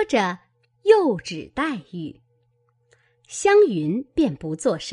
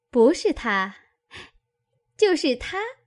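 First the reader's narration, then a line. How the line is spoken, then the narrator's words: Laughing. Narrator (Chinese): 琥珀又笑道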